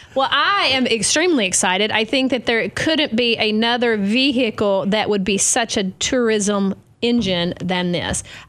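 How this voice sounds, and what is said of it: Southern American accent. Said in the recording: “a Southern, my accent”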